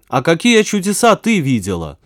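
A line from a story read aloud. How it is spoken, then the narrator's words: Shouted. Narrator (Russian): закричал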